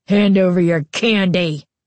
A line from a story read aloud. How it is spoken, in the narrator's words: Carly Beth snarled, surprised by the vicious tone in her voice